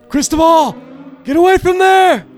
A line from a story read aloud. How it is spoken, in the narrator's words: screams like